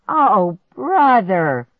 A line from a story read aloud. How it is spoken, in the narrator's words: I moaned